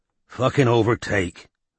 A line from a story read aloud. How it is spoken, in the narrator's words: growled Strike